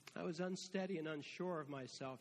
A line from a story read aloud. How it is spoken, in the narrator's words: Josh says